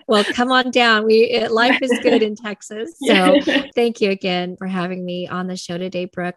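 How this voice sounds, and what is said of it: Southern American accent. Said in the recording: “she has a Southern accent”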